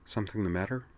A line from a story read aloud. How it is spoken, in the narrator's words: murmured